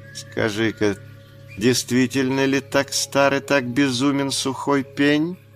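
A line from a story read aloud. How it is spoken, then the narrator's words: Tender asking. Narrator (Russian): нежно спросила Багира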